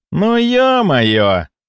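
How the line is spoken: Inner groan. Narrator (Russian): мысленно простонал я

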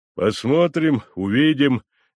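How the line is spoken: Vague mutter. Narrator (Russian): неопределенно буркнул Евпсихий Африканч

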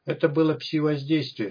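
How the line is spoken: Calm and confident. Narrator (Russian): сказал вождь спокойно и уверенно

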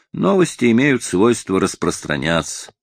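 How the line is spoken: Reasoned, sensible tone. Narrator (Russian): заметил я рассудительным тоном

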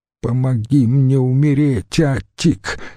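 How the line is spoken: Moaning woman. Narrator (Russian): стонала она

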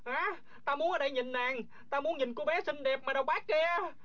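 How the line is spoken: Shouting. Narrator (Vietnamese): Du Thản Chi la lên

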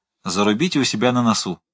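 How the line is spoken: Plain. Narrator (Russian): сказал Балмашов

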